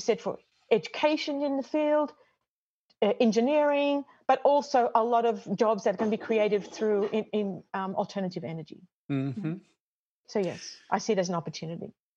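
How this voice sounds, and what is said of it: Australian accent. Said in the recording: “Is that where you got your accent? ... No, I'm Australian, actually.”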